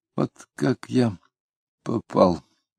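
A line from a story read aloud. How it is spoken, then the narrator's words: Said quietly. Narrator (Russian): тихонько произнес Кутузов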